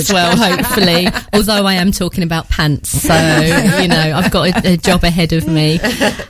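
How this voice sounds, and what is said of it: Essex English accent. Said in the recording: “I'm originally from Essex ... I don't know how strong the accent comes across here.”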